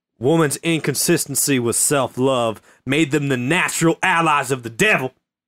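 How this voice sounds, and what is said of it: Put-on Southern US accent. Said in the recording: “I really appreciate the southern accent you're reading it in.”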